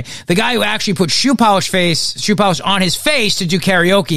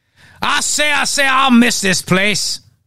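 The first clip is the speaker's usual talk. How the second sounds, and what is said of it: Put-on exaggerated southern accent. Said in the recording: “That's my southern accent, of course, is sort of foghorn leghorn.”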